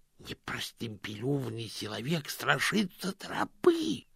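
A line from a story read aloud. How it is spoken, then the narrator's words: Hiss. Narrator (Russian): прошипел один из нападающих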